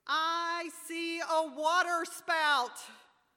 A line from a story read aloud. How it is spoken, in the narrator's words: I hear her shouting